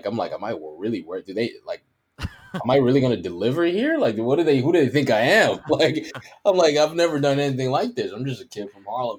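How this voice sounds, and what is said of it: New York accent. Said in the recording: “I think they love the New York accent.”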